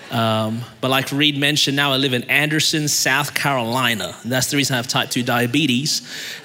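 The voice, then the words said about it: Australian accent. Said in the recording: “I was born in Melbourne, Australia. And that's the reason my voice is this way.”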